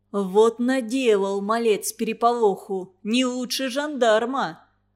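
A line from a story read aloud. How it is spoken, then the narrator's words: Deep bass. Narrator (Russian): Пробасил Федор Туранин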